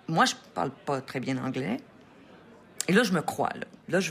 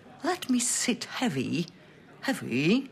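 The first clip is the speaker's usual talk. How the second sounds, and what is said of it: Put-on British accent. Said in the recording (French): “je vais faire quelque chose que je pense que c'est un bon accent brit.”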